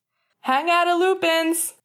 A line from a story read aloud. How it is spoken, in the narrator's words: Finn hollered in the hallway